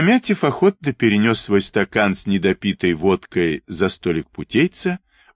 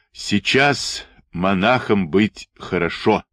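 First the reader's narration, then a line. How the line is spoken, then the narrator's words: Deep booming bass. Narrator (Russian): прогудел он басом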